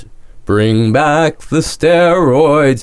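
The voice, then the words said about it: Put-on Broadway accent. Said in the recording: “That's my ... Broadway accent.”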